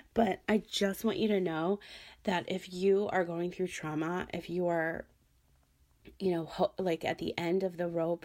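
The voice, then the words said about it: Hoarse, strained voice. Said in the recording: “now I'm losing my voice again.”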